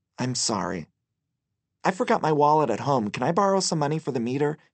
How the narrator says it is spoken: he asked

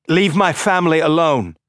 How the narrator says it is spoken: He was shouting

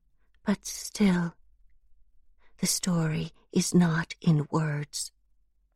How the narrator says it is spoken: as if in apology and whispers

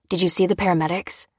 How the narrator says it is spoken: panted Dan

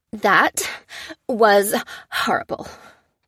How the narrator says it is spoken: gasped Maurice

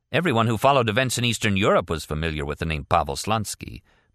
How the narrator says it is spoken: Martin said

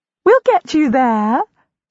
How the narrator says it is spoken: she giggles briefly

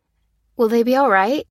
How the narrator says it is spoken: she said nervously

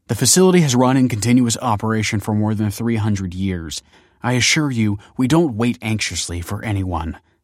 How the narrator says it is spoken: snapped Kelsey

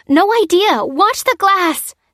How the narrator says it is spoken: shouted Lucy

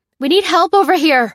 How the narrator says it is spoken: cried, frantically

